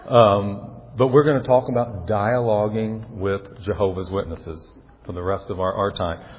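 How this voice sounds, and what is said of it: Slight Southern accent, slow speech. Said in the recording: “you've got a little bit of an accent... I grew up in the South, and I think I speak a little slow sometimes”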